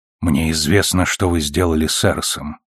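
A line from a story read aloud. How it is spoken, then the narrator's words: Quiet. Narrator (Russian): тихо сказал Фред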